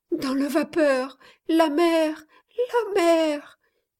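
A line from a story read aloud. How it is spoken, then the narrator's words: Moaning, teeth chattering. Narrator (French): gémit la malheureuse jeune fille, les dents entrechoquées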